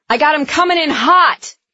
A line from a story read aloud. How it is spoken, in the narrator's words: Breck shouted